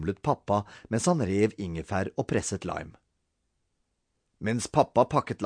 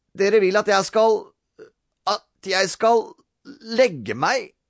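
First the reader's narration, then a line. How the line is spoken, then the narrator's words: Stammering. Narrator (Norwegian): stammet Robin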